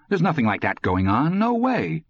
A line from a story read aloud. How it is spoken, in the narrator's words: Indignantly, Todd said